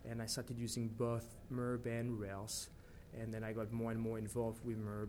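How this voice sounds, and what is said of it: French accent. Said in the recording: “the accent, because you are actually French”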